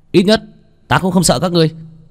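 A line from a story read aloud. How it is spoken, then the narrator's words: Old man yelling. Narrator (Vietnamese): Lão gia hỏa gào lên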